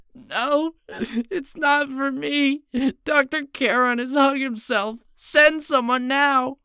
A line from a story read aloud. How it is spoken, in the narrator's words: Finally regaining her voice, Rebecca nearly screamed